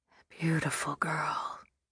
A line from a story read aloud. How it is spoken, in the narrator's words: whispered